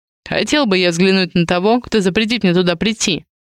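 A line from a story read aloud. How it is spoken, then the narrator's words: Snort. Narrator (Russian): хмыкнул Адриан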